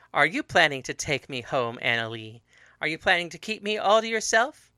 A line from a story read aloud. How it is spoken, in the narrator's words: laughed